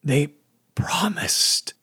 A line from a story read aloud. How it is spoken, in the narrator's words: she whispered